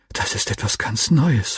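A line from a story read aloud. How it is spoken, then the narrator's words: Whispering. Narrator (German): flüsterte ich meinem Freund zu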